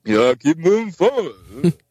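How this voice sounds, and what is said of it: Imitates another person's voice. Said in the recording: “that was my Stallone impression ... That was well played, sir. Well played.”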